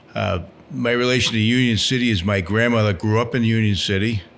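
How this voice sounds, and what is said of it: Strong accent. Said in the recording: “You probably detect quite quickly that I'm going to have a strong accent.”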